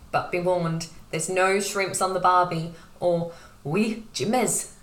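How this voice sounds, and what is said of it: Put-on accent. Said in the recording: “Excellent accent”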